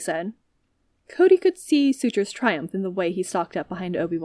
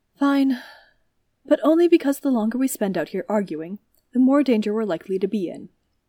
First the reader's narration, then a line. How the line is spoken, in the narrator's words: sighed and said